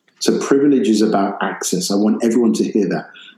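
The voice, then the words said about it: British accent. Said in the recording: “they're asking me about Great Britain ... my voice, my accent”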